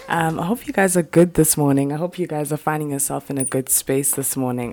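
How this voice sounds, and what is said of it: Deeper, just-woken-up voice. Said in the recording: “My voice is a little deeper than usual because I'm recording it literally this morning... just, you know, woken up”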